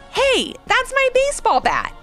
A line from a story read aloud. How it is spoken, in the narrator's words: exclaimed